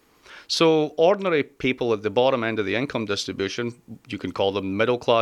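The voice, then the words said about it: Non-American foreign accent. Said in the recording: “As you're probably guessing from my accent, I come from a country whereby you can say that”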